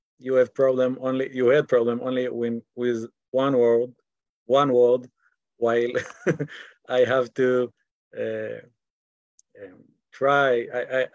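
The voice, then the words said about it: English with an Israeli accent. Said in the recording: “I have to try to speak English in my Israeli accent ... my poor accent”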